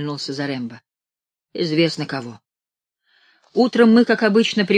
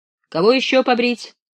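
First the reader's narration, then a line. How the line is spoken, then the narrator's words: Cheerful shout. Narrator (Russian): весело крикнул Зарембо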